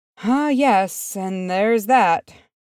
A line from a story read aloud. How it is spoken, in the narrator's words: sighed Freese